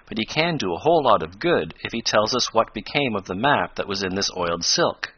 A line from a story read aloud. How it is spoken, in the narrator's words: went on Tom, in a reassuring tone